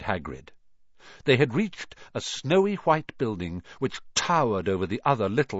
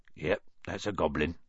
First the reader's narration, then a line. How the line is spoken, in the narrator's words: said Hagrid quietly